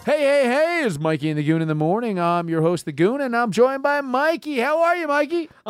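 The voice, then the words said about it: Morning zoo radio DJ voice. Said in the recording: “We do our radio voice.”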